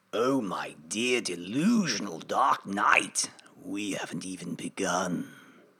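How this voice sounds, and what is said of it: Mark Hamill Joker voice impression. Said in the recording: “Can we have a little bit of Mark Hamill ... We'll have to cut all of our impressions together.”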